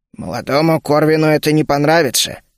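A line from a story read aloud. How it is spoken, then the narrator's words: Cold. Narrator (Russian): холодно сообщил Шен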